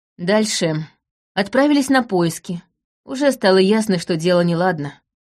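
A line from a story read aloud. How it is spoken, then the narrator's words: Gloomy. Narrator (Russian): мрачно ответил Лаурин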